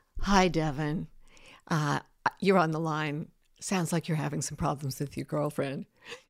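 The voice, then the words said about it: Late-night radio DJ voice. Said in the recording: “late night DJ voice”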